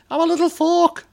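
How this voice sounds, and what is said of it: Poor impression of cartoon character voice. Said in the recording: “that's not what he's like. That's not a good impression.”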